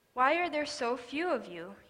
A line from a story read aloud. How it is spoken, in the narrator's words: he asked